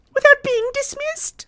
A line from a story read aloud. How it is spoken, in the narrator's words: gasps Effie